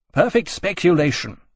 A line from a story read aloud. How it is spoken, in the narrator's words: Keynes snapped